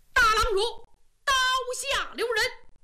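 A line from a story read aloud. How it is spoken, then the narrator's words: Loud shout. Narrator (Chinese): 忽然有人高喊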